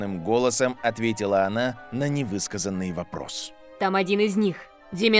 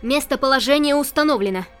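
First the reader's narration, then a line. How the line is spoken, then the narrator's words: Triumphant shout. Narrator (Russian): выкрикнула Ора, триумфально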